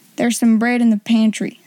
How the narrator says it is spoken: said the cook

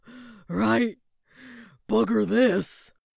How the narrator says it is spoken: gasps the demon

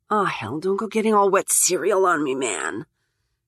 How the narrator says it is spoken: she mutters

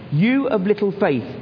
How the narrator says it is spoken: said

